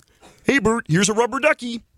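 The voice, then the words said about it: Muppet character voice impression. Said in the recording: “my Ernie impression ... That was not really bad, good ... That was really good ... It's like next level”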